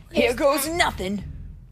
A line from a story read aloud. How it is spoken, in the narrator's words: Lando cried